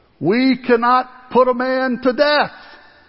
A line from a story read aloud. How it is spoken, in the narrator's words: they shouted back